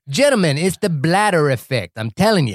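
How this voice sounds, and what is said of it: Poor imitation of a Creole accent. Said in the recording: “that's an awful Creole accent”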